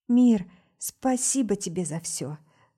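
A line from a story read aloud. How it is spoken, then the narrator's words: Light whisper. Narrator (Russian): Легкий шепот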